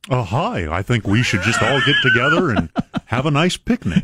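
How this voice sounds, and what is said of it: Cartoon bear-like voice. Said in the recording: “do your Governor Bennett voice... He does sound like a cartoon bear”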